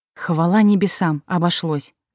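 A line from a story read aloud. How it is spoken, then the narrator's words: Relieved exhale. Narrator (Russian): облегченно выдохнул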